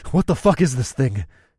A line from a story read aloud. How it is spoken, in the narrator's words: I panted